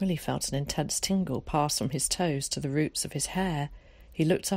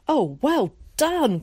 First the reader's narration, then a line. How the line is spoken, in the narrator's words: cried Zack